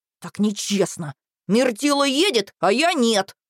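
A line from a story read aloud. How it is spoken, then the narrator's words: Sulky hiss. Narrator (Russian): прошипел он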